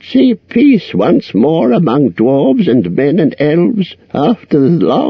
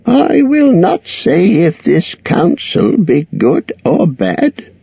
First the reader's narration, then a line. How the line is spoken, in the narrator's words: croaked Roak